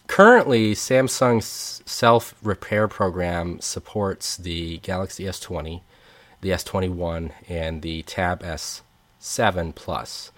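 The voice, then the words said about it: Slightly congested, nasal voice. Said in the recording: “As you can tell, my voice is much stronger. I do have some nasally congestion stuff still going on”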